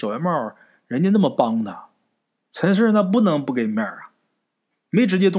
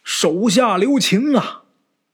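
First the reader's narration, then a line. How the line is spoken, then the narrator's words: Shouting from afar. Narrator (Chinese): 小圆帽啊在那边喊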